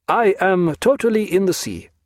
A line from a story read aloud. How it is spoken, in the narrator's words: said Jagiello, cheerfully